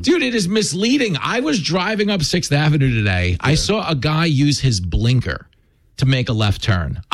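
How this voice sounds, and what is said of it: New York accent. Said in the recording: “nobody sounds like this ... everybody shows up with my accent, including the women from Staten Island ... You're not a New Yorker”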